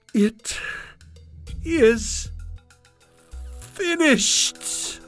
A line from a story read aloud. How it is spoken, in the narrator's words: he cried